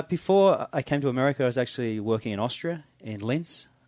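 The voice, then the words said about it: Australian accent. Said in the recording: “I can tell you by your accent, you're local ... not local to Marin County ... I'm originally from Sydney, Sydney, Australia”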